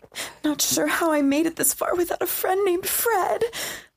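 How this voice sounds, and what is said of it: Weak, scared-sounding voice. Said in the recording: “weak person? ... it wasn't really an accent. It's an emotion. It was scared.”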